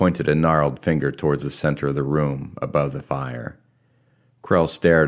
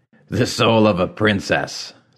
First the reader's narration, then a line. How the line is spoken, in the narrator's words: the war chief barked a laugh